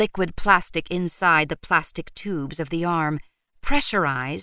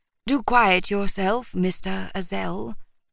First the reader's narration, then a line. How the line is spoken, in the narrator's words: the chief of police said in an almost bored tone